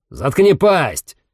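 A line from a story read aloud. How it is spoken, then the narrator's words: Barked shout. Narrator (Russian): гаркнул Руссо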